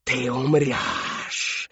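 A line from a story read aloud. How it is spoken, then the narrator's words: Menacing hiss. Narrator (Russian): раздалось шипение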